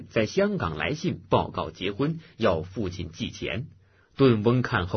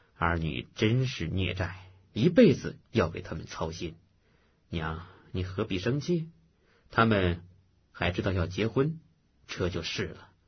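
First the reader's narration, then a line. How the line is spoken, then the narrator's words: Sighing. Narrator (Chinese): 叹气道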